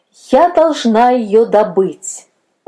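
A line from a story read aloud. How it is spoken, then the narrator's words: Loud repetition. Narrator (Russian): повторяла громко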